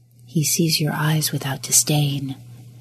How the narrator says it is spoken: a voice whispered in the back corners of his mind

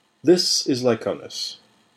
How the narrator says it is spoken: said

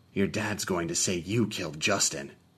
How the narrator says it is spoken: I whispered to the moaning Franklin

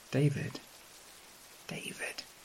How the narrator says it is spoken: whispering from the depths of the sack

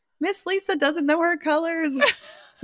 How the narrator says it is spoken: the child like yelled out

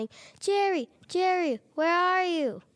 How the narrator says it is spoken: shouting

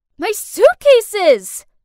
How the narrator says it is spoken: I yelled

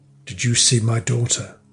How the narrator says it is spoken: she said in a low tone

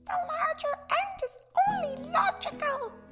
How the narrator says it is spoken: Blefuscu's emperor shouted

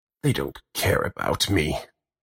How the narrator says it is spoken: the old lady grumbles as she coughs a deep, watery cough

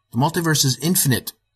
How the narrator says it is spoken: I exclaimed

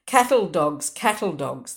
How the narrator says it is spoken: the Protestants cried derisively, young Frank shouting louder than the rest

